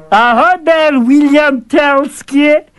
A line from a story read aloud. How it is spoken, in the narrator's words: the fool shouted